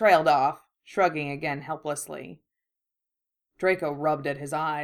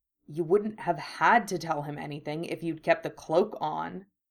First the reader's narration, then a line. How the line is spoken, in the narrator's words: Harry said irritably